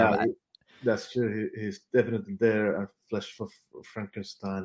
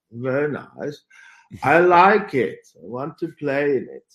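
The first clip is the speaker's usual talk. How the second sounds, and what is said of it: Imitates another person's voice. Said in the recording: “good impersonation”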